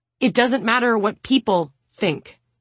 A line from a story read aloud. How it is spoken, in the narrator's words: she snaps